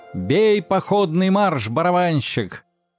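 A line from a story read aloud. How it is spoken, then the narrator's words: Loud shout. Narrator (Russian): громко крикнул Щелкунчик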